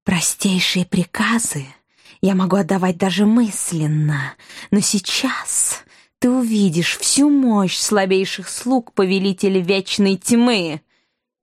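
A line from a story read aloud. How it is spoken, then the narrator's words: Irritated hiss. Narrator (Russian): Уже с изрядной долей раздражения прошипело ее величество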